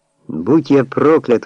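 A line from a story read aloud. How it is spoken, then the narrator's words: Surprised exclamation. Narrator (Russian): воскликнул я, увидев, кто пришел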